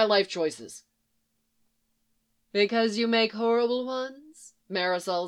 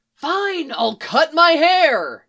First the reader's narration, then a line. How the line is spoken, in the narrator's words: Jason yells